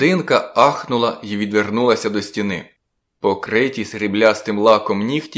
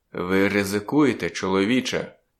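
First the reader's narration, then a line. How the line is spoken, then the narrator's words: Quiet. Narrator (Ukrainian): тихо проказав він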